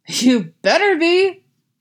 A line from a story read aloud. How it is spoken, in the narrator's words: Robin shouts